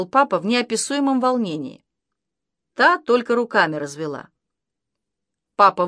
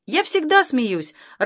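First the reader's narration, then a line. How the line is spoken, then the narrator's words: Joyful mother's reply. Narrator (Russian): радостно откликнулась мама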